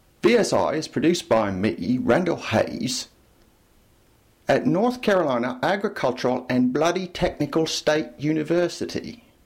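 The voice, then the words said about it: Attempted British accent sounding Australian. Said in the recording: “sounded more Australian than British. I'm not very good at this sort of thing.”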